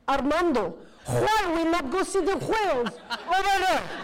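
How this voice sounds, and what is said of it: Imitates another person's thick accent. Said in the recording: “he spoke in the thickest accent ... I started talking the way he talked ... My God, why are you talking like that?”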